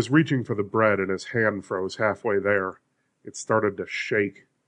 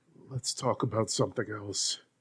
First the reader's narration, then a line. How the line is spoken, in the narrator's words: said in a whisper